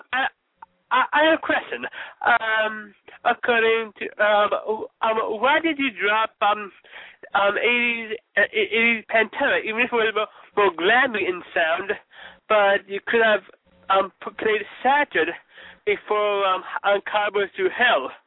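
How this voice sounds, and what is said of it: Caller with a foreign accent. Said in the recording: “I love the accent. I really do.”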